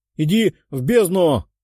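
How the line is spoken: Archer shouting. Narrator (Russian): выкрикнул один из лучников

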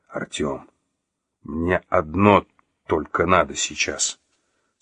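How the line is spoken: Through gritted teeth. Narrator (Russian): сквозь стиснутые зубы процедил Василий

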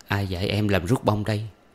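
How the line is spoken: Plain. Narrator (Vietnamese): chàng hỏi

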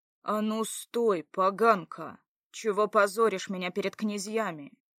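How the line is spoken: Growl. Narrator (Russian): Прорычал

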